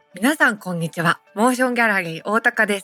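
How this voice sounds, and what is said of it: Slight imitation of another person's voice. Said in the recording (Japanese): “ややだよ。ややだけど、モノマネ入れたっしょ。”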